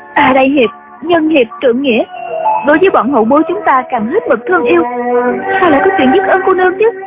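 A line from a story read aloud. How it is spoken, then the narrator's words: Trembling voice. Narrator (Vietnamese): Chú Chỉ Nhược run run nói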